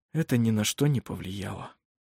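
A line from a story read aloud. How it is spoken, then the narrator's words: Calm whisper. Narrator (Russian): спокойно прошептал он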